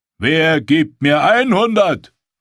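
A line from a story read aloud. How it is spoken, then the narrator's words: Auctioneer calling out. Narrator (German): rief der Auktionator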